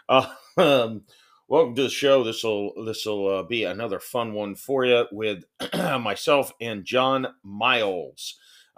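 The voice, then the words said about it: Scratchy voice. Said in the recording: “My voice is a little scratchy today for some reason”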